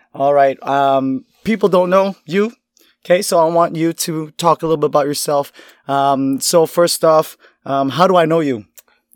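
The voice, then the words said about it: Raspy, strained voice. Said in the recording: “my voice sounds a little shitty at the moment ... I've been using my voice a little too much, so it might sound a little raspy”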